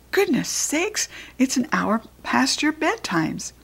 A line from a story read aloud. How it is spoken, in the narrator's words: Thomas gasped